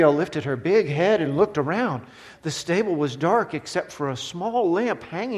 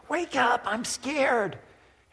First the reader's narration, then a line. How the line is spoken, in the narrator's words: whispered